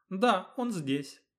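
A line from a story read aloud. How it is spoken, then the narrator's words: Calm agreement. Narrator (Russian): спокойно согласилась Исилея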